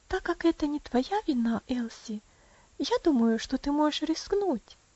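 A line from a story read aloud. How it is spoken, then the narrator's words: Gentle, affectionate. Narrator (Russian): ласково сказала Роза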